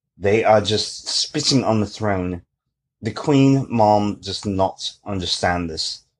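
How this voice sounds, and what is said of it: Put-on English accent. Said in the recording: “where did you get the English accent from?”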